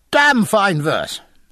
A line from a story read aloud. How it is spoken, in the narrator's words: cried Jack, after a very slight pause